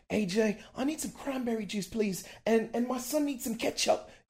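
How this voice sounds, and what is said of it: Put-on English accent. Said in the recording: “I got this English couple over here asking me ... accent.”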